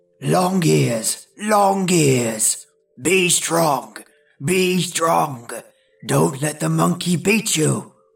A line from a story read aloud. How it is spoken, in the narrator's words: grunted the bear